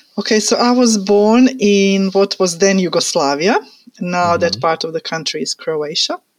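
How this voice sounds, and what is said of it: Slight foreign accent. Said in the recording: “you have a little bit of an accent. You sound great.”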